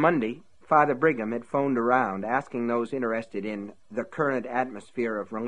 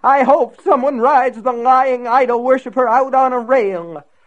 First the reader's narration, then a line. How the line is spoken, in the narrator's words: William Rose cried